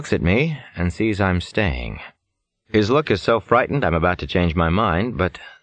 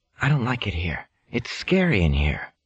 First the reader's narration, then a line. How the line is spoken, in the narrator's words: Chris whispers